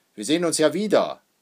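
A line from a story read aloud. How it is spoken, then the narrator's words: Calling out. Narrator (German): ruft Vater Hackendahl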